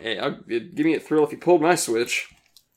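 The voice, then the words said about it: Slurred, mouth-full speech. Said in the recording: “I'm slurring my words. I got a mouthful of marshmallows.”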